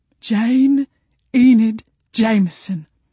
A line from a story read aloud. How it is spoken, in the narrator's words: she thundered